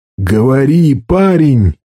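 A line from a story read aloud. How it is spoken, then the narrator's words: Shout. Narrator (Russian): крикнул Каркало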